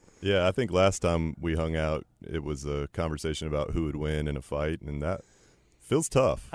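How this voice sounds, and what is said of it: Booming radio voice. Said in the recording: “He's got a booming radio voice.”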